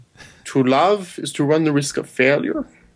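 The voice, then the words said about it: Good impression of a film character. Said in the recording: “That's like a really good impression... that's actually a damn good impression”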